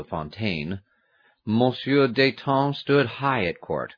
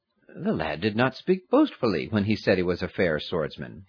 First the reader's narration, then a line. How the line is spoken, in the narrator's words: muttered to himself